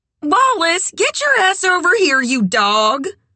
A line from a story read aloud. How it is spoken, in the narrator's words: Red yelled